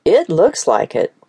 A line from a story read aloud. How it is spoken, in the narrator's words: Sydney said as he let out a loud chuckle